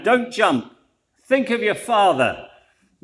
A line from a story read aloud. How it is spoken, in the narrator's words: The cop yelled up to the man